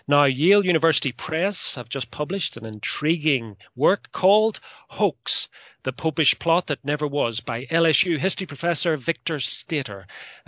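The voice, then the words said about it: British Isles accent. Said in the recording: “you can probably hear by my accent that I am from these islands on the other side of the Atlantic”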